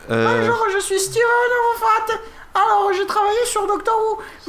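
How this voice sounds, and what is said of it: Put-on southern French accent. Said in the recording (French): “j'ai cet accent alors que je suis pas du tout du sud”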